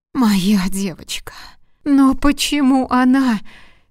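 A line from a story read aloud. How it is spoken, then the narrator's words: Sobbing scream. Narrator (Russian): кричала Дельфина, рыдая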